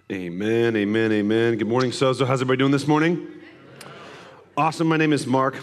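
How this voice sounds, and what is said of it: Hoarse, strained voice. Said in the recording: “way my voice sounds ... I just lost my voice”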